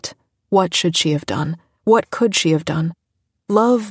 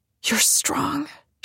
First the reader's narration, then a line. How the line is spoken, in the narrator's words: she said, her voice strained